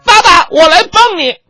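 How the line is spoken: Boy shouting. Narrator (Chinese): 儿子大喊一声

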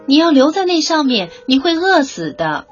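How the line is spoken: Shouting out into darkness. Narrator (Chinese): 阿米尼奥男爵对着黑洞洞的窗外大声喊道

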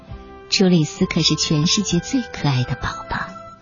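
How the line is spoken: Admiring, in unison. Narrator (Chinese): 爸爸妈妈齐声赞叹

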